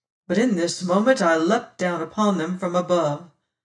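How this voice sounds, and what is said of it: Usual voice. Nothing is said of it.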